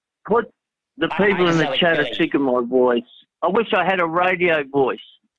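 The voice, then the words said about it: Australian accent, drawling. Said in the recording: “Your accent makes you all the more interesting ... The Australian, accent sounds really good to us ... it's an Aussie drawl, mate.”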